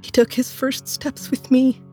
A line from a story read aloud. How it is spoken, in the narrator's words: she sobbed